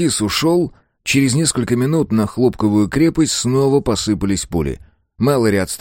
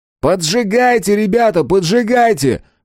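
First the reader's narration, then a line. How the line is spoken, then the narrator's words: Shout. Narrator (Russian): крикнул Мэлори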